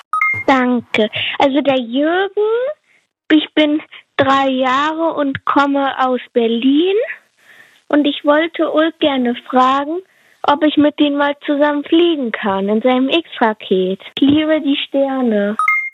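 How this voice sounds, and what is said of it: Child claims, voice sounds much older. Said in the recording (German): “du klingst echt deutlich älter... Hast du nicht gesagt, du bist 3 Jahre alt?... Du klingst wirklich älter.”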